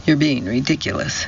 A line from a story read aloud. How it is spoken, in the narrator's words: said the major